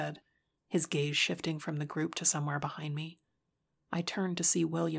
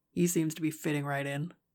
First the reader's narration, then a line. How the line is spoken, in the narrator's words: Dustin said, and his low laugh escaped his lips